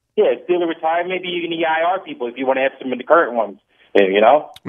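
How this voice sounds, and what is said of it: New Jersey accent. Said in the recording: “now you're coming through with your New Jersey accent there... I heard it slip out”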